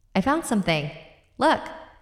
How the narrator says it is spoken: Allie yelled out

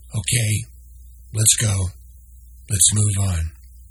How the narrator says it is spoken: Noah sighed deeply and then said

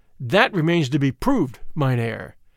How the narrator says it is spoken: I answered hotly, for the insinuation that I had sold out stung me

